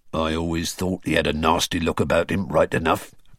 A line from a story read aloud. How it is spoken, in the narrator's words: grunted a man